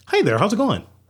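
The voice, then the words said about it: Put-on white guy voice. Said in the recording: “I'll put my white boy voice on, too.”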